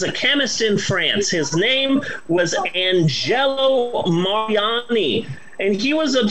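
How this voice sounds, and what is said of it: Usual voice. Nothing is said of it.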